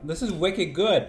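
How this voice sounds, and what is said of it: Boston accent. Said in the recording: “my Boston accent's coming out.”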